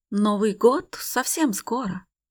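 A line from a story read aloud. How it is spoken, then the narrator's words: Plain. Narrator (Russian): говорит он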